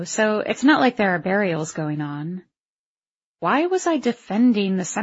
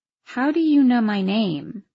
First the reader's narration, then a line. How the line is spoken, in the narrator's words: I said slowly